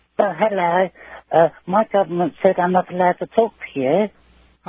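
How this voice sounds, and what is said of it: Put-on child's voice. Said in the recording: “I can tell you're imitating a voice from a mile away ... you know me and my funny voices ... that was ... under 16 voice ... trying to sound like a child”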